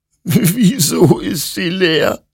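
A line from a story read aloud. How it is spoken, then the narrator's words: Sobbing. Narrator (German): schluchzte Hektor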